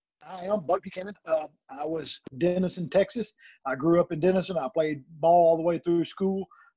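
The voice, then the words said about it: Texan drawl. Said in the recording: “your drawl that you're from Texas”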